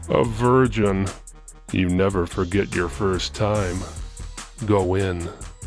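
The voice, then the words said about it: Deep character voice. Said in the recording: “deep voice”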